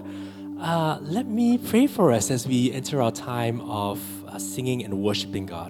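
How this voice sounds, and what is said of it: Strained, failing voice. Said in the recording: “My voice is kind of a little bit giving out this evening”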